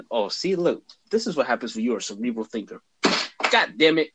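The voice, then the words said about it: Imitates another person's voice. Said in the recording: “In my Kevin Hart voice.”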